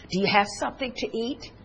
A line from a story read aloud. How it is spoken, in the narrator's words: I called to her softly in German